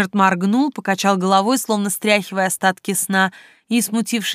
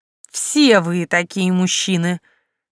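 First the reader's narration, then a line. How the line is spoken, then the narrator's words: Capricious, reproachful sigh. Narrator (Russian): Я капризно надула губки и осуждающе вздохнула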